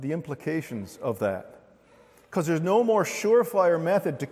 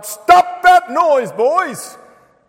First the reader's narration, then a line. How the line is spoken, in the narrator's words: the father shouted out